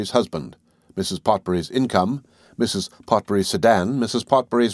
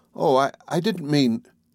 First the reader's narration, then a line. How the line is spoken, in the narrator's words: Carol begged